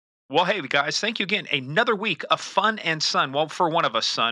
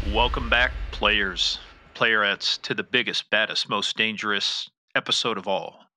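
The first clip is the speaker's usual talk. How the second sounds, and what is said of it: Deep announcer voice. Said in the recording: “That deep voice, was that supposed to be your sexy voice? ... my new announcer voice”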